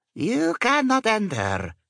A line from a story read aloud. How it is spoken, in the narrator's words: she croaked in English